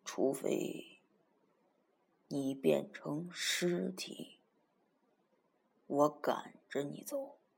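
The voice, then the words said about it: Soft, quiet voice. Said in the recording (Chinese): “小声的说”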